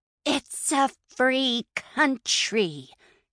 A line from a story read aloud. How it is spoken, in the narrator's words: Tabby hissed